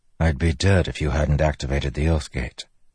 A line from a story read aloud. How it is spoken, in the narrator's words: Kaladin said softly